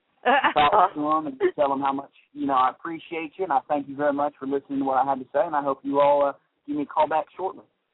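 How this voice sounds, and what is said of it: Put-on Southern US accent. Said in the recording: “the real southern accent, you know, just bringing out a little bit”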